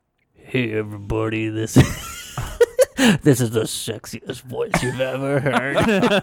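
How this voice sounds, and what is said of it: Exaggerated deep low voice. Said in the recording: “do your low voice”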